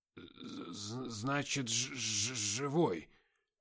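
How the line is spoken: Drunken mumbling. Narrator (Russian): забормотал он

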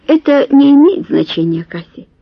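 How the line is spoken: Soft whisper. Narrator (Russian): мягко шепнул граф

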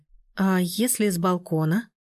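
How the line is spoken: Slow. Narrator (Russian): медленно начала она

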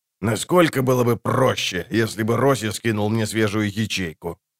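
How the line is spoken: Grumbling. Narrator (Russian): проворчал

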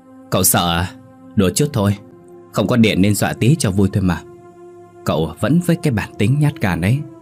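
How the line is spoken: Gloating loud laughter. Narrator (Vietnamese): bạn của Vương đã đắc chí cười lớn

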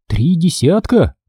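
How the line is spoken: Repeated fearfully. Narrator (Russian): испуганно повторила она

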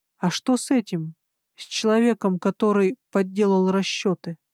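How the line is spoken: Plain. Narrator (Russian): спросила я

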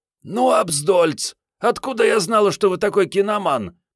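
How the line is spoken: Hoarse rasp. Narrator (Russian): прохрипела Мариетта

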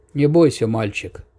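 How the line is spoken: Quiet. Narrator (Russian): тихо произнес Вацлав

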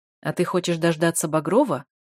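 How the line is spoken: Sharp question. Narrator (Russian): довольно резко спрашивает он

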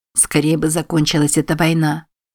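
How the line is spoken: Plain. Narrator (Russian): ответил Билли

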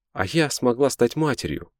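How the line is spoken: Exclamation. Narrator (Russian): воскликнула Инна

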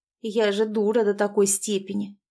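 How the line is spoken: Angry muttering to herself. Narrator (Russian): пробурчала Василиса про себя, откровенно злясь

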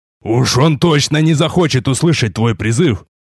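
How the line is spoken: Pained growl. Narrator (Russian): прорычал, вырывая из своей груди нож

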